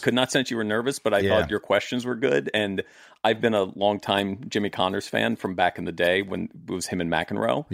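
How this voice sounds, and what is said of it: British accent, slightly mid-Atlantic. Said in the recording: “speaks in an English accent. He has a nice British accent. ... it's a little mid-Atlantic now”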